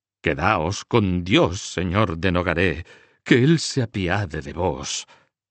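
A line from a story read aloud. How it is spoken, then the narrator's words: Threatening tone. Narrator (Spanish): le dijo en tono de amenaza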